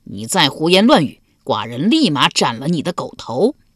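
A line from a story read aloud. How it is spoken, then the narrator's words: Roaring. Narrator (Chinese): 齐襄公 大吼道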